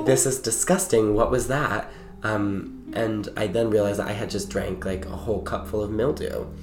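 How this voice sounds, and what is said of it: Hoarse, strained recovering voice. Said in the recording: “why my voice sounds like this right now. Like I'm still recovering from getting my voice lost”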